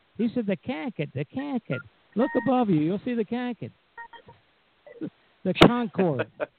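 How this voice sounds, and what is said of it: Imitated Boston accent. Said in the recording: “that's the Boston accent? ... That's an accent.”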